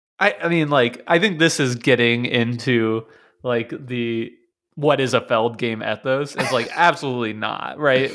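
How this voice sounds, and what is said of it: Voice sounds congested. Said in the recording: “I have a cold, okay? This is not the best version of myself.”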